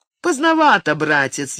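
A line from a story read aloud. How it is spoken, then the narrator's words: Snide remark. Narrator (Russian): ехидно заметил Эмилио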